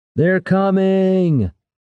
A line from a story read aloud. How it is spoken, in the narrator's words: came a shout from somewhere along the wall